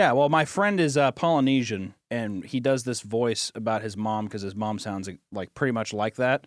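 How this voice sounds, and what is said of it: Usual voice. Nothing is said of it.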